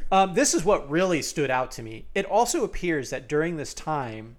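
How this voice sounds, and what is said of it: Usual voice. Nothing is said of it.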